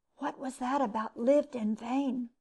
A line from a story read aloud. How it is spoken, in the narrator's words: whispered one student to another